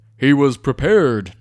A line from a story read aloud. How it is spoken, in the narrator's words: boomed Nutmeg